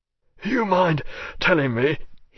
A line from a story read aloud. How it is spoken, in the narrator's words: he managed hoarsely after a while